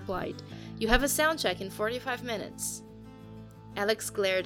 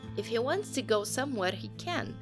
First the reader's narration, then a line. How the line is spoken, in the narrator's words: she said, annoyance apparent in her accented voice